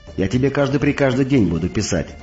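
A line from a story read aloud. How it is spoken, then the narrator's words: Rapid chatter. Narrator (Russian): затараторила Викса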